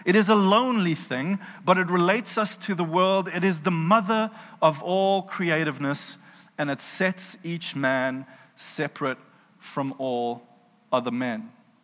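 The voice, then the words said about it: South African accent. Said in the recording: “my accent does not do Steinbeck any favors ... I hear a South African accent in my head”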